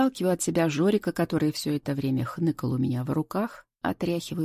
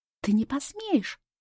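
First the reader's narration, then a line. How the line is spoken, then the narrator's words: Shrieking. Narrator (Russian): взвизгивает Рита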